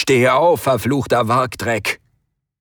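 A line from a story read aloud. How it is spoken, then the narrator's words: Grunting, bellowing. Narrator (German): grunzten und brüllten ihn an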